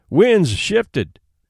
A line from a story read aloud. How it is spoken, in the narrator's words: cried Hank vigorously